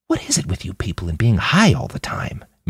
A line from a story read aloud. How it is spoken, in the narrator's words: Manny whispered back